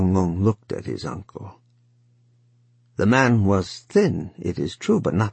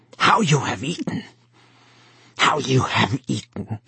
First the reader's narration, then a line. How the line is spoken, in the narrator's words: he muttered thickly